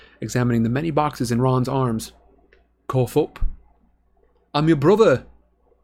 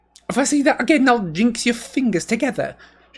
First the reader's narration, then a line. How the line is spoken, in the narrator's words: she said sharply